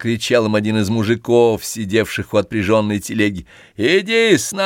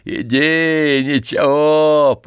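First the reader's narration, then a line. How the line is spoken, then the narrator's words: Cheerful shout. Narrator (Russian): прокричал веселый бородатый мужик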